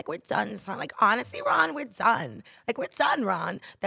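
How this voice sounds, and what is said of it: Impression of Sammi Sweetheart from Jersey Shore. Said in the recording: “That was my Sam from Jersey Shore impression... do Sammy Sweetheart”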